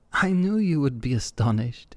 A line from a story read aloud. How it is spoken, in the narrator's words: laughed Desiree